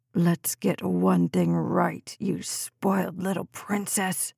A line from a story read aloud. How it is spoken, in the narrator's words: hissed into her face